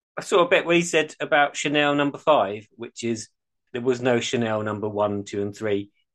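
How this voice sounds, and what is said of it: Ashford accent. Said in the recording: “I love the way that you say it in an Ashford accent. Sounds like you're saying Chanel 5.”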